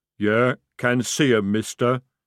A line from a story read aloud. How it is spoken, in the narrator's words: rumbled